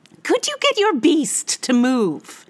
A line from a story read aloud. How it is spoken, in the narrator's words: She said sharply